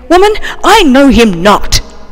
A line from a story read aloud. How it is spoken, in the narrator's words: Peter felt compelled to answer and said angrily